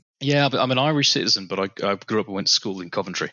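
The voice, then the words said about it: British accent. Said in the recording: “it's a very welcomed accent... we don't get too many Brits on here... I just have the accent... It's going to be super British”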